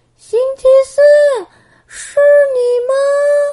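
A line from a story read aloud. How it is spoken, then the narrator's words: Excited shout. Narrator (Chinese): 波波兴奋的大喊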